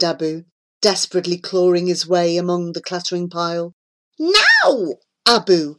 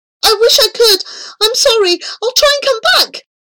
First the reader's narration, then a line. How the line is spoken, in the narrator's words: cried Abu